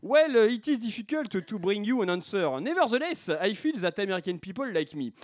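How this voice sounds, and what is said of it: Put-on French accent in English. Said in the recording (French): “l'accent français”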